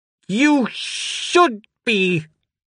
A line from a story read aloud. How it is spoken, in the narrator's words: she screeched